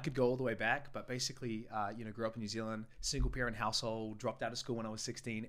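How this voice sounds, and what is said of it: New Zealand accent. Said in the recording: “from New Zealand, hence the accent”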